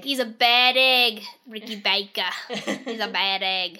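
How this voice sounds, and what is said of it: Put-on New Zealand accent. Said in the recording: “Don't make fun of my accent or hers. We're not New Zealanders.”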